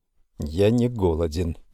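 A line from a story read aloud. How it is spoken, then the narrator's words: Disappointed mutter. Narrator (Russian): буркнул Рой, в глазах которого читалось тоже бесконечное разочарование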